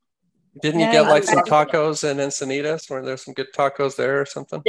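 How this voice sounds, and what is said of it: Usual voice. Nothing is said of it.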